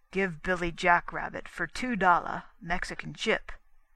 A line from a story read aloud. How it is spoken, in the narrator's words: demanded, in a guttural voice